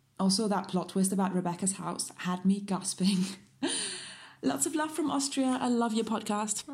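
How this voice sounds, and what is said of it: Beautiful foreign accent. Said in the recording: “what a beautiful accent.”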